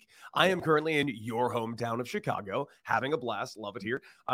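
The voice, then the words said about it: Tired, worn-out voice. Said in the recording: “you can probably hear it in my voice a little bit. It's been a very long week.”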